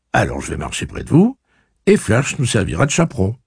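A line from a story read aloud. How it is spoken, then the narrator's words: Cheerful. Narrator (French): fit-il gaiement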